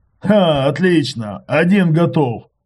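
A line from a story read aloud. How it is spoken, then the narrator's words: Joyful. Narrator (Russian): сказал радостно Иваныч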